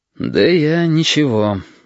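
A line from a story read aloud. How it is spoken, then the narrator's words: Sigh. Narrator (Russian): вздохнул Корнелий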